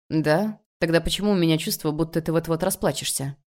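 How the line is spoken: Casual everyday tone. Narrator (Russian): Произносит он будничным тоном

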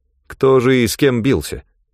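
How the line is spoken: Grim smirk. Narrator (Russian): Ганилон мрачно усмехнулся

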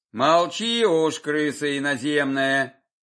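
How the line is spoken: Grumble. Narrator (Russian): пробурчал солдат

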